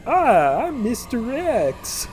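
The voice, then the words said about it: Video game character voice. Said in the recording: “That's a perfect impersonation. That's exactly what he sounds like for a character that doesn't talk.”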